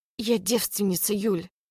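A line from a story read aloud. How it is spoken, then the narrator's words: Interrupting with forced chuckle. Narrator (Russian): Перебиваю, выдавив смешок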